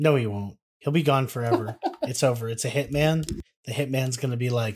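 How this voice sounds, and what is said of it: Usual voice. Nothing is said of it.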